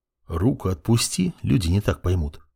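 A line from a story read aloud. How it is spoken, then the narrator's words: Through gritted teeth. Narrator (Russian): Процедил я в ответ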